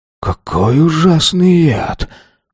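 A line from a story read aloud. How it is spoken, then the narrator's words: Breathless, muffled by hand. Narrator (Russian): выдохнул беловолосый закрыв рот правой ладонью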